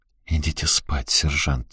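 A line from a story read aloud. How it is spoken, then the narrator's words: Quiet. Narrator (Russian): тихо сказал я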